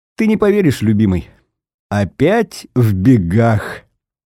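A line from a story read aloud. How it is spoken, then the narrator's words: Laughing. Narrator (Russian): смеясь, говорит она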